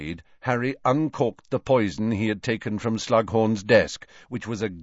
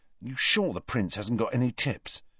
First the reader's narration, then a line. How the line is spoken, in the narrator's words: Ron muttered to Harry